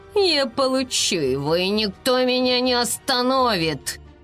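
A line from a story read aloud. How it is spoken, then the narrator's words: Gloomy. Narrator (Russian): Айси мрачно сказал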